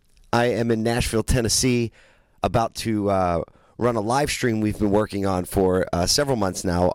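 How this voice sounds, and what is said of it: Hoarse, nearly lost voice. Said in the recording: “my voice is just about gone today”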